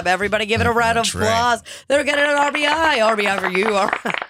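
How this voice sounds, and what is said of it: Booming announcer voice. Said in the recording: “I love the announcer voice more than anything in the world”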